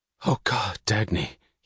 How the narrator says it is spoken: he whispered

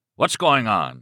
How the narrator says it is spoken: he cried in a gruff voice which proclaimed that he didn't care if it was the Pope of Rome out here, the party was over

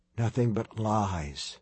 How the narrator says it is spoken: Tim whispered

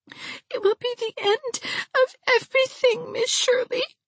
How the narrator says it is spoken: sobbed

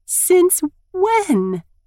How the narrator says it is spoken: I squeal in excitement

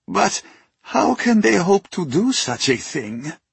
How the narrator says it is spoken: asked a stooped man with long white hair, his voice quavering

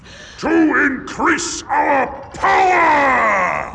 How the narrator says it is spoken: roared the king

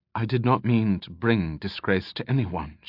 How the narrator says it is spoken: she replied quietly

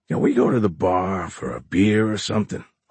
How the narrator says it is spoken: Horn groaned

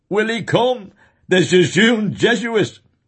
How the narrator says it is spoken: laughing with delight, cried

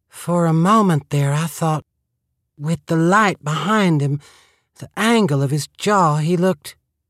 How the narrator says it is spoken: In a breathy voice, she said

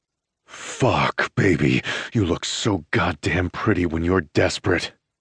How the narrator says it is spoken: I groan

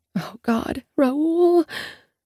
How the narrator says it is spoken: I moan

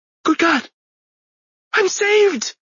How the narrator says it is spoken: he cried

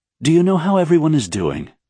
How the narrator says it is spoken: she asked

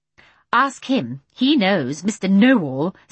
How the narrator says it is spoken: said Mary Poppins, scornfully

